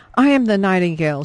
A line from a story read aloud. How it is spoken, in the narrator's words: she called out